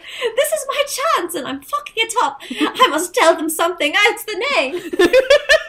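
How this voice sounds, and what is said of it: Put-on British accent. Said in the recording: “That was my best British accent I've ever done in my life. ... Wow, that was really good”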